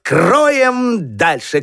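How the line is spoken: Shout. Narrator (Russian): крикнул Петька

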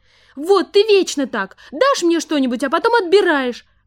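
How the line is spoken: Exclamation, daughter. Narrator (Russian): воскликнула дочь

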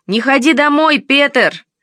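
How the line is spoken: Boys shouting. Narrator (Russian): кричали уличные мальчишки

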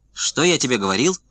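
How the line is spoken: Shouting. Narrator (Russian): закричал Подковкин

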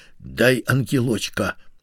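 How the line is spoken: Rude hateful demand. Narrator (Russian): Сашка с ненавистью посмотрел на нее и грубо потребовал

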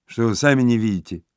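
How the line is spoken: Plain. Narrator (Russian): ответил летчик

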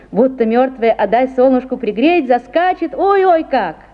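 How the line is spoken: Laughing. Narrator (Russian): засмеялся Савушкин

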